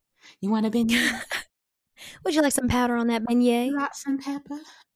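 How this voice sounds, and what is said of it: Put-on 1950s housewife voice. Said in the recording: “practiced this accent... This is our attempt at a 50s housewife”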